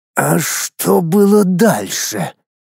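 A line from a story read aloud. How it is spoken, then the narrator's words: Hoarse question. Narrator (Russian): хриплым голосом спросил Лорган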